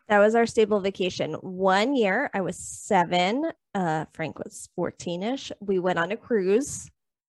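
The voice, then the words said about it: New York accent. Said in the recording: “if you can't tell by her accent, she lives in New York”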